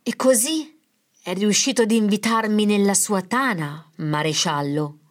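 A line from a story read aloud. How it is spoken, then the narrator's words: Fluting, feigned timid voice. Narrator (Italian): Esordì con voce flautata e finto intimorita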